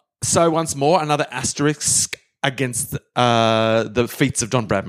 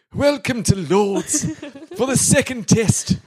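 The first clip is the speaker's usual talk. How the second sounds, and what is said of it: Very posh English accent. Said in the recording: “We need a different English accent. ... We need even posher, even posher for Lords, the home of cricket.”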